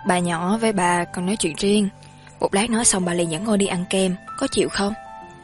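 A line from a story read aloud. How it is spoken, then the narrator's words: Gentle, smiling. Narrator (Vietnamese): Triệu Tử Thiêm mỉm cười nhẹ nhàng nói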